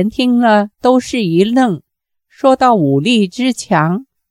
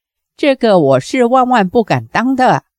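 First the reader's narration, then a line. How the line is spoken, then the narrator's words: Slight smile. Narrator (Chinese): 小龙女微微一笑说道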